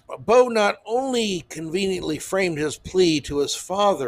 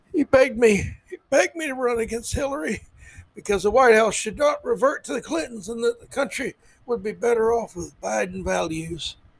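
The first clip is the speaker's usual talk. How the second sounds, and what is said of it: Imitates another person's voice. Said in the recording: “That's my Biden impersonation. I'm working on it. It's a work in progress.”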